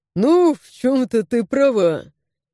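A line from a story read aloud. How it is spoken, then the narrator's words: Blacksmith's short laugh. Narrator (Russian): хохотнул кузнец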